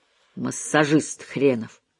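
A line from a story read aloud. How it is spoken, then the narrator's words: Muttered. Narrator (Russian): пробормотала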